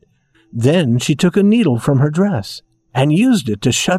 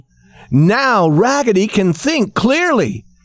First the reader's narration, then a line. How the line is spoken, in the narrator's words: shouted all the dolls